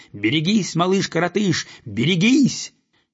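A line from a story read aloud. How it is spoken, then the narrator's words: Gander shouting after. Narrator (Russian): Белый гусак успел крикнуть ему вслед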